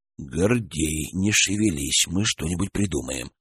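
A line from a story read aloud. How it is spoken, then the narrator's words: Whispered promise. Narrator (Russian): шепотом пообещал Гурьян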